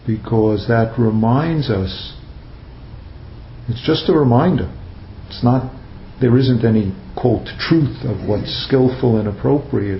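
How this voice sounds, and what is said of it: Strong New York accent. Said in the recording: “Sometimes my accent squashes words together, so I have to clarify ... New York accents are strong”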